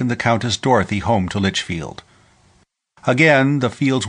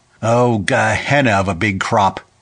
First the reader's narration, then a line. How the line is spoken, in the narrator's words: Clem Zaref's voice chuckling happily above the babble in the room